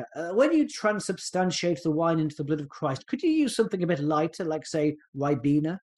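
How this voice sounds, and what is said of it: Generic posh voice impression. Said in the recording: “I also can't do a Scottish accent, so I'm doing my generic posh voice whenever I do an impression of Norman Kerr”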